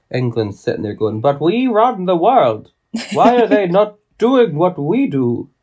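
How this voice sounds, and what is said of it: Put-on unidentified accent. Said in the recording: “That's obviously not an English accent. I don't know what that accent was”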